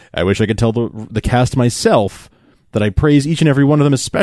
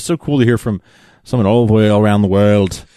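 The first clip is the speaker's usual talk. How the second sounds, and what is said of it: Put-on Liverpool accent. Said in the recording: “What was that accent you just did? ... It was Liverpool, I guess.”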